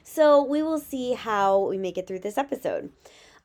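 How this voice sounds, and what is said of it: Shaky voice from illness. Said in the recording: “my kiddos got sick, and then I got it. As you might be able to hear, my voice is still kind of shaky.”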